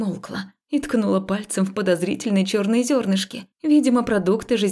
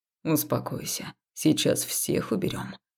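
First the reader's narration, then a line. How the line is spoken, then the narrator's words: Gentle whisper. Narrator (Russian): шепнули мне ласково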